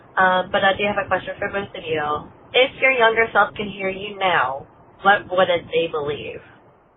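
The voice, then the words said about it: Rough voice, still recovering. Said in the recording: “Don't mind my voice. My voice is literally coming back from a cold.”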